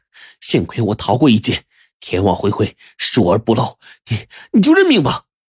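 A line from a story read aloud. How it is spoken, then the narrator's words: Angry. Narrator (Chinese): 阿旺怒瞪着杜如林说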